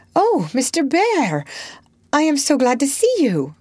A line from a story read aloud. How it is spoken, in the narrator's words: cried Jo with a clutch, as if she feared the night would swallow him up